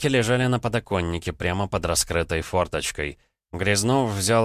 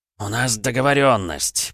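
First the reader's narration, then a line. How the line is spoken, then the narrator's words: Growl. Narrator (Russian): прорычал Фадеев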